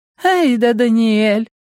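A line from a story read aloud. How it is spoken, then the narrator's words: Sugary cooing woman. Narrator (Russian): приторным тоном проворковала одна из них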